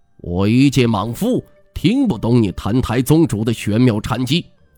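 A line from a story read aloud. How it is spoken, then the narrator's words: Deep low voice. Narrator (Chinese): 毛叔朗沉声道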